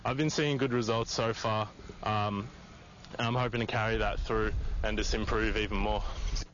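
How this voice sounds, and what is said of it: Australian accent. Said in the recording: “can't you just listen to an Aussie accent? It reminds me of Paul Hogan. ... I really liked his accent. ... How do you not like an Aussie accent?”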